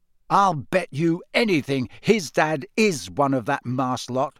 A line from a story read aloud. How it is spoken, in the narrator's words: said Ron hotly